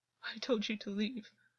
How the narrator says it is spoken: August said, but his voice was still fragile

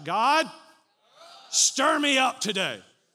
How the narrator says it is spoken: Somebody shout

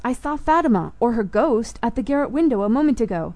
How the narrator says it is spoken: cried Max

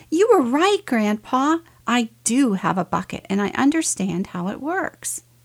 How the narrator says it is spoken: he shouted

